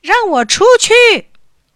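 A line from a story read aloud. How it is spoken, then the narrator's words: Loud shouting. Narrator (Chinese): 大拇指大嚷起来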